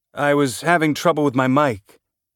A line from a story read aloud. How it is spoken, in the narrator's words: Jim said